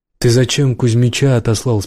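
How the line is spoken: Plain. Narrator (Russian): спросил таджик

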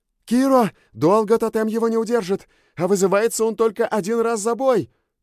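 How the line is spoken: Shouted. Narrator (Russian): крикнула Сьюн

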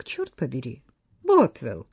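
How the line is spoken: Cheerful. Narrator (Russian): весело отметила она

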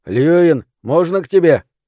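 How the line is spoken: Shouted. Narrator (Russian): Джеймс крикнул

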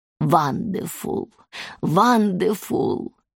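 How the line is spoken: Exhaled after deep breath. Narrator (Russian): Кэмнам сделала глубокий вдох, закрыла глаза и выдохнула

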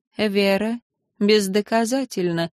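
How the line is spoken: Calm. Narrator (Russian): произнесла шаманка спокойно

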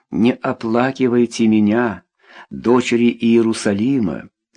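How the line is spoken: Plain. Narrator (Russian): сказал учитель

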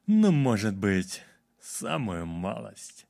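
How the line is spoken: Velvety voice. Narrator (Russian): бархатным голосом произнес

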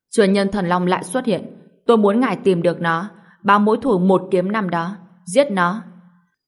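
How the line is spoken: Loud commanding shout. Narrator (Vietnamese): Trong tông đường, Tá Đẳng Thái Thần lớn tiếng quát

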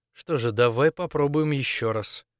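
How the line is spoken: Muttering. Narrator (Russian): Пробормотал

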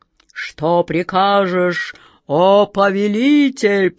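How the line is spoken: Booming. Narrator (Russian): прогремел он

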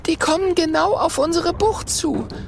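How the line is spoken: Excited call. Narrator (German): ruft Mathilda aufgeregt

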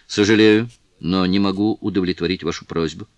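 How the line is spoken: Plain. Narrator (Russian): ответил он

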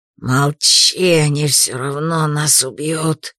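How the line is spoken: Hissing. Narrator (Russian): зашипел фанатик

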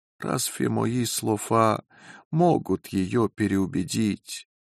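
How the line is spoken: Sad question. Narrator (Russian): грустно спросил

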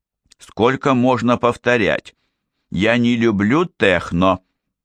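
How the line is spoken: Snapped. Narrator (Russian): огрызнулась Майя

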